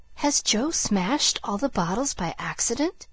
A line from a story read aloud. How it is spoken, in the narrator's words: he whispered